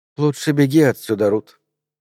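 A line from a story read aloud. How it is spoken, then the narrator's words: Tender voice. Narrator (Russian): ласково произнесла она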